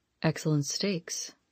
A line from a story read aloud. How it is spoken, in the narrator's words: he murmured